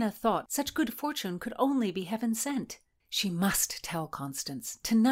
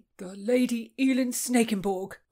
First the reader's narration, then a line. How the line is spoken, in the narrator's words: cried Falk, his rumble rocking the boat